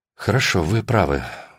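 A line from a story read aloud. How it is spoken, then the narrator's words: Sighed. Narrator (Russian): вздохнула Алина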